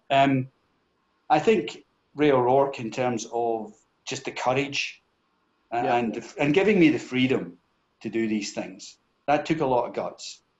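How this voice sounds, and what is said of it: Scottish accent with a lilt. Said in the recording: “it can be particularly sexy in a Scottish accent ... you got this Scottish accent, you got this Scottish lilt”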